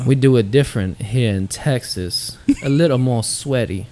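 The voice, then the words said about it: Put-on Texan accent, getting worse. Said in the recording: “that's the accent just got shittier as it went”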